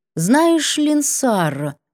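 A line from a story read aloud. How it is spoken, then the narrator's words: Thoughtful drawl. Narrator (Russian): протянула задумчиво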